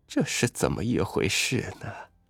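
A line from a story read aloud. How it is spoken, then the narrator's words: Sighing, listless muttering. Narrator (Chinese): 那老女人叹一口气，无精打采的…嘴里自言自语的说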